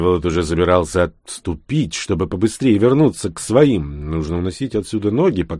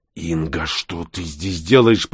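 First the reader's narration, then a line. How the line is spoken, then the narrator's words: Hissed. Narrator (Russian): прошипел он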